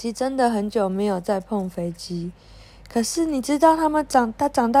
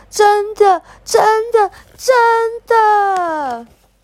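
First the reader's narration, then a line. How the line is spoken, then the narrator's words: Loud. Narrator (Chinese): 小琪……大声的说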